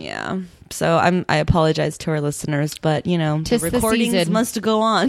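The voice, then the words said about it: Slightly nasal, congested voice. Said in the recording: “I'm battling a little bit of something right now. I can tell I sound a little nasally.”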